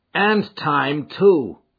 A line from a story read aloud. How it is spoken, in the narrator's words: cried Ted Baldwin